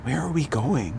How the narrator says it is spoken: Madison asked in her smallest teen voice

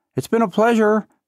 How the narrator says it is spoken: shouts desperately, trying not to burn any bridges

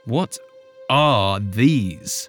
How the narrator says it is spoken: growled

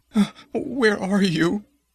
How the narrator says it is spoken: she sobbed

